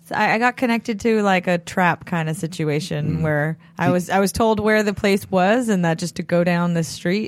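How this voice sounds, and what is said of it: Slightly raspy voice. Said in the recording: “I think my voice is still a little raspy.”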